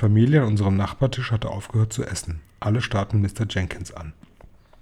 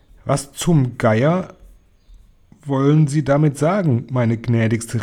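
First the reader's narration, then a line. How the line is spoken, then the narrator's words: Called out. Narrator (German): rief Mr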